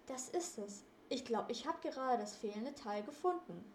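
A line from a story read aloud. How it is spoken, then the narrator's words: Calling out. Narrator (German): rief er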